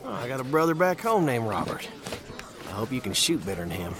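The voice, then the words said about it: Tennessee Southern accent. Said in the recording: “I never heard an accent like that before. ... Tennessee.”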